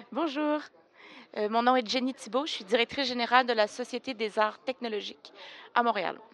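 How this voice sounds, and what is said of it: Slight Québécois French accent. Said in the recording (French): “quelqu'un qui a un petit accent que j'adore”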